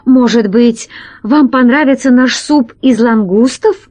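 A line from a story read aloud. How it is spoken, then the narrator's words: Pleading. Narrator (Russian): взмолился Громозека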